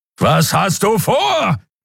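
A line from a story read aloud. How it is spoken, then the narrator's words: Bellowing. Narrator (German): brüllte Kero wieder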